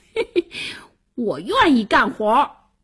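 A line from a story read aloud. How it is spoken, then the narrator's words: Loud laughter. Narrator (Chinese): 王小二大笑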